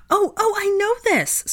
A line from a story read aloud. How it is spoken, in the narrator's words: squealed Hannah